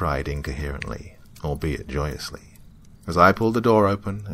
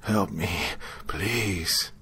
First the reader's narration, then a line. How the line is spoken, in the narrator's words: he groaned